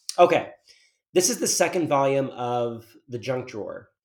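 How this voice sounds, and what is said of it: Raspy, scratchy voice. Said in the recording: “these allergies are killing me ... the raspiness is something you can hear in my voice ... have the scratchiest sounding voice”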